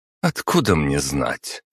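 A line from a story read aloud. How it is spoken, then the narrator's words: Scornful snort. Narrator (Russian): фыркнула ей в ответ Агата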